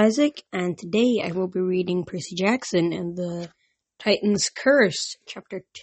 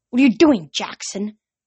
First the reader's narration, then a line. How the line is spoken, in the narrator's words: hissed Dr